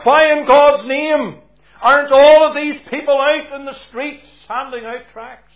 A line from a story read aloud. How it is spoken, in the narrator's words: he called out